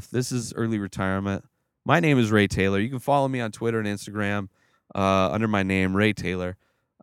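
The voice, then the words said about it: Strained, nearly lost voice. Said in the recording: “My voice is almost gone.”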